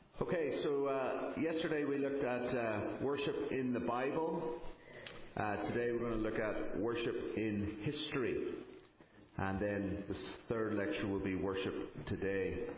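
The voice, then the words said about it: A distinctive regional accent. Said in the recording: “You clearly like the accent ... the accent sounded good”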